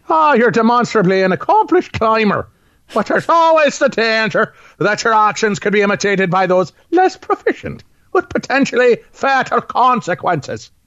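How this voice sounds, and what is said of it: Put-on Irish accent, like Commissioner Gordon. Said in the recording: “So he sounds like Commissioner Gordon from the 1966 Batman series. ... that's the only Irish accent I know.”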